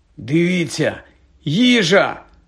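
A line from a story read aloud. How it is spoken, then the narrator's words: Exclaimed. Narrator (Ukrainian): вигукнув Рон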